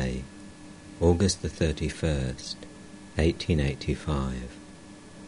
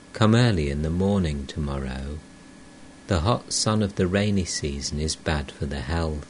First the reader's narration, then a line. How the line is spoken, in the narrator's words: Sri Ramakrishna said to him tenderly